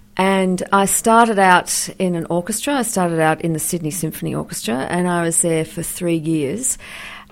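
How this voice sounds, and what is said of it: Australian accent. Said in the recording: “As you can hear by my accent, I'm an Australian.”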